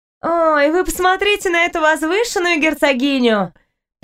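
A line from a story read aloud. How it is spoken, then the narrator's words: Contemptuous girl's laugh. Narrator (Russian): Презрительно засмеялась девушка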